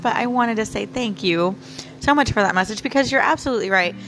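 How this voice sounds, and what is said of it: Slightly hoarse voice. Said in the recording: “my voice is kind of hoarse”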